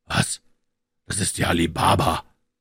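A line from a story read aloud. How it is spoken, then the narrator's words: Joyful exclamation. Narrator (German): rief Scrooge voller Freude aus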